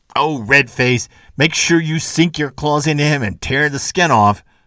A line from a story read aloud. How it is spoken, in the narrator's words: shouted the whole crew of evildoers at once